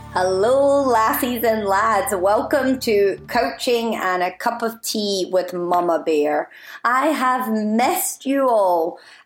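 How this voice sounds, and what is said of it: Scottish accent, a little stronger than usual. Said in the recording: “I've been in Scotland, so if you're wondering why my accent is possibly, potentially, maybe a little bit stronger than previous episodes ... I love my accent”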